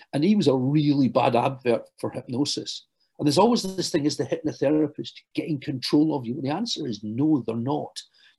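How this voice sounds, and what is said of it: Glaswegian Scottish accent. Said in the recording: “you can tell from my accent ... I hail from Glasgow”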